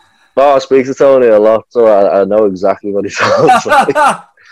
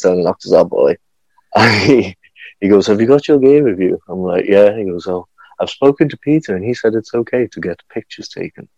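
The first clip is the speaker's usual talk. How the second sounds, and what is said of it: Imitates another person's voice. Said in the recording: “Impersonation of Tony, that.”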